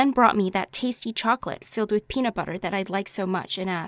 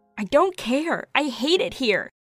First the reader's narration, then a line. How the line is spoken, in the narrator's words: cried even harder